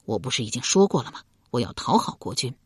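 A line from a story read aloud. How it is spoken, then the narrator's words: Lowered voice. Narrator (Chinese): 一牙压低声音道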